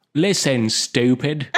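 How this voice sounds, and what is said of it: Put-on British accent, nasal voice. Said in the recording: “with a British accent ... Why are you plugging your nose?”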